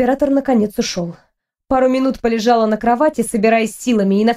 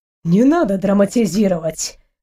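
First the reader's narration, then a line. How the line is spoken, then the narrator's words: Snort. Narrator (Russian): хмыкнул Амир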